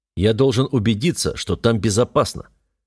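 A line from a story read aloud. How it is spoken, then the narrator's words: Steely tone. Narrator (Russian): стальным тоном поясняю я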